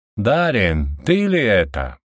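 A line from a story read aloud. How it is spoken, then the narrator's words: Inhumanly powerful, loud voice. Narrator (Russian): Не своим голосом, а более мощным и громким, чем у любого человека, спросил верховный жрец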